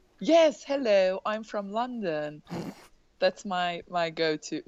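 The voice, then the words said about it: Poor put-on British accent. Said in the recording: “What's my go-to British accent ... That's a train wreck accent.”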